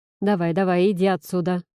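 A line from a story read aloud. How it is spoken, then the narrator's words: Kindly grumbling. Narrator (Russian): по-доброму заворчала Елена Геннадьевна и добавила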